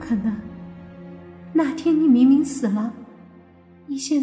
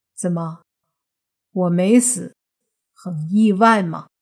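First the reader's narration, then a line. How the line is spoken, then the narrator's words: Cold. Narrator (Chinese): 莫凡则是冷着脸，说道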